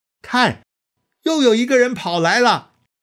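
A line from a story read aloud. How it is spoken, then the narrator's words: Watchman shouting. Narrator (Chinese): 守望的人对守城门的人喊说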